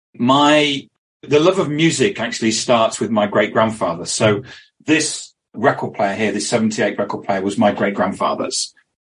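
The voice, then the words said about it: British accent. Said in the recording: “You can probably detect, but from my accent, I'm not local to you ... I'm based in the UK. I live in London.”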